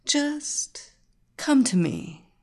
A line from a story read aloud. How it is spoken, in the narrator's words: she said in her silk and honey voice